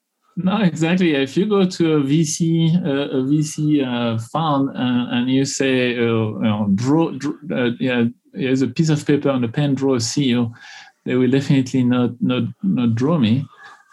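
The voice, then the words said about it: Non-native foreign accent. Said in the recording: “I'm a woman, an immigrant, I've got an accent”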